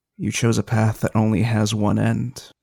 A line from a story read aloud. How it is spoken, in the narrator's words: Durin's going to lean very close to Eska's ear, whispering